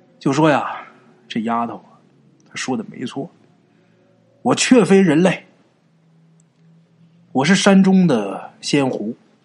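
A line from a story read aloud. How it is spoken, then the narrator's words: Sighing old man. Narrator (Chinese): 老头啊，叹了一口气，跟他们俩人说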